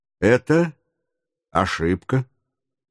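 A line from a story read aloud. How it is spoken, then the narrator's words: Calm objection. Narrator (Russian): спокойно возразил майор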